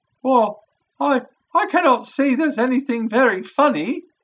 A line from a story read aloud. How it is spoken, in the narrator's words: cried our client, flushing up to the roots of his flaming head